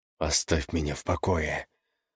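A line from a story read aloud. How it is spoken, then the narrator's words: Hissed through teeth. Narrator (Russian): сквозь зубы прошипел он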